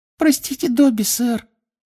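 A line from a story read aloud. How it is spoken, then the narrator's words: Guilty squeak. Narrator (Russian): виновато пискнул эльф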